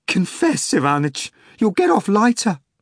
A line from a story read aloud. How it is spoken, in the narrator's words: Pelagio Antonovna exclaimed